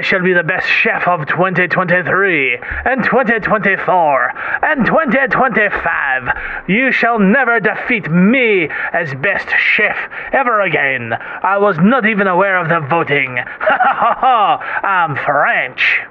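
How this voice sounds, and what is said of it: Inconsistent put-on French accent. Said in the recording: “His accent goes in and out.”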